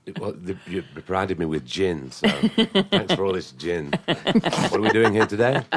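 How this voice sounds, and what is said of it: Speaks with a nice accent. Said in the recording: “he's got a nice accent”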